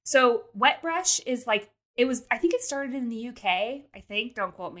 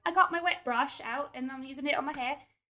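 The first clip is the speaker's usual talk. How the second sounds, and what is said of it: Bad put-on British accent. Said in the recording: “British YouTubers ... terrible accent, really bad”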